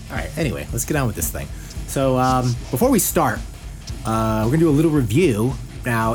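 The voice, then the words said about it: Deep radio announcer voice. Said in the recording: “I have a radio voice, people. Like I can't help it. I'm going to talk like this the whole time.”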